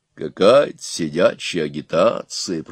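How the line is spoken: Grumbling. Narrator (Russian): проворчал он

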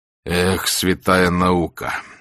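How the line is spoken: Sigh. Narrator (Russian): вздохнул

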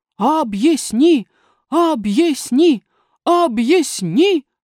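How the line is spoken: Crowd shouting in unison. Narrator (Russian): прокричало племя

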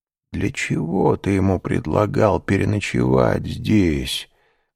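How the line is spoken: Muffled, hollow voice. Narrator (Russian): спросила она глухим голосом

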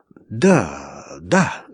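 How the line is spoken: Thoughtful agreement. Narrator (Russian): задумчиво соглашался Иван

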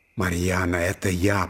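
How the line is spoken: Man whispering. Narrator (Russian): прошептал казак

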